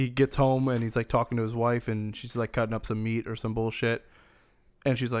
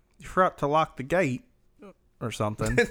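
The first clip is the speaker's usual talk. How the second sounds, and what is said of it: Put-on British accent. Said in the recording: “Like that's my British accent.”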